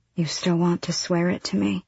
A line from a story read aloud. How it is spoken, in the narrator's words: Her voice was flat